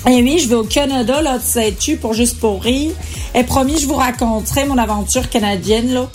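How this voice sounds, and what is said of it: Rough put-on Canadian French accent. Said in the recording (French): “cet accent approximatif”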